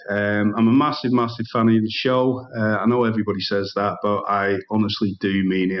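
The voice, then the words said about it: UK regional accent. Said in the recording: “I love ... accent”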